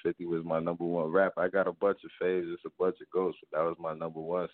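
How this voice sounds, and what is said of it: Northern US, New Jersey accent. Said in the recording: “I hear this up north accent. Is you not from Charlotte or you up north?”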